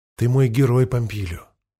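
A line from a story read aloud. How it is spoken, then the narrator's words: Quiet girl's reply. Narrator (Russian): тихо ответила девушка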